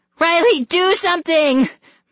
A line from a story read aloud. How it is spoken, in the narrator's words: my sister shrieked in terror